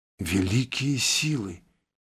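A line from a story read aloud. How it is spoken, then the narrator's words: Frightened mutter. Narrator (Russian): Не стесняясь испуга, пробормотала Лой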